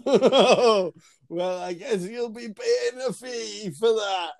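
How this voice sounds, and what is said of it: Imitates another person's voice. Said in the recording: “That's my Jim impression. ... That's very good”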